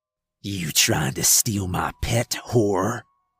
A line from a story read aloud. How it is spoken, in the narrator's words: he asked … growling